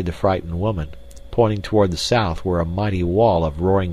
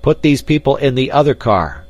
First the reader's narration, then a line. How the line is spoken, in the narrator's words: shouted the stranger to Clayton